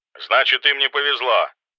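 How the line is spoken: Rude curt retort. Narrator (Russian): грубо отрезала Руда

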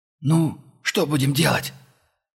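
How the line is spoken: Hoarse, stinging whisper. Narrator (Russian): Хриплый шепот монгола обжег, стеганул по нервам, как хлыст

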